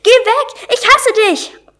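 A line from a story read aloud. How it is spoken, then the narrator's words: Stallion's scream. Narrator (German): Der Hengst schrie auf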